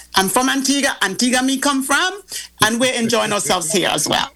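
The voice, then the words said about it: Antiguan Caribbean accent. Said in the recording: “I just love when you guys get back into your accent.”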